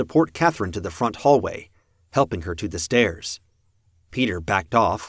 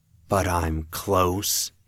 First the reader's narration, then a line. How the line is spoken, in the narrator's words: he whispered